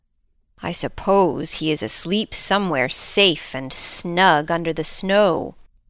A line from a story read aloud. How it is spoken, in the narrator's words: grumbled Hooty